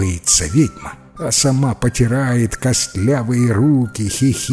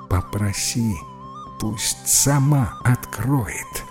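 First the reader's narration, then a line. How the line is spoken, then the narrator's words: Whispering. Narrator (Russian): шепнул Чернулин Джипу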